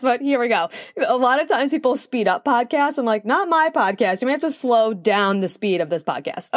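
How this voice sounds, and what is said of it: Breathless, very fast speech. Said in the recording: “out of breath. I feel like I'm talking so fast”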